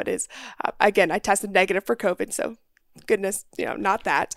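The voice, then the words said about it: Sick, rough-sounding voice. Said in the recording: “I've been a little bit sick ... under the weather ... my voice sounds much worse than I feel ... it's making my voice sound a lot worse than I feel”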